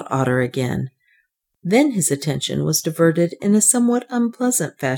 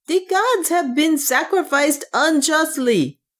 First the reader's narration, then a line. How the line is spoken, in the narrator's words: yelled the people